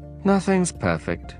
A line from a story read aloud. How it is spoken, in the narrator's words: sighed the fox